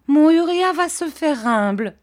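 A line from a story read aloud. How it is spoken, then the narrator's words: Exclaiming mother. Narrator (French): s'écria sa mère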